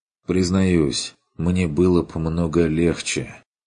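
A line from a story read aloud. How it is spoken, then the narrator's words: Wistful sigh. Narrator (Russian): вздохнул Курт тоскливо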